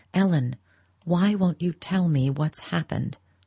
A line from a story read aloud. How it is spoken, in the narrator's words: he pleaded earnestly